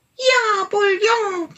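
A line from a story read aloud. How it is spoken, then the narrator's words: Small animal calling. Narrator (German): rief der kleine Tiger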